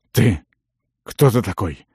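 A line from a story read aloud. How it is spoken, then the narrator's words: Hoarse breathless exhale. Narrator (Russian): хрипло выдохнул наемник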